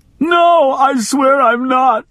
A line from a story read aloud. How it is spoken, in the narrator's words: she howled